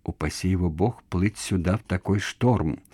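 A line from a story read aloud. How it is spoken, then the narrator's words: Whispered. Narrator (Russian): прошептал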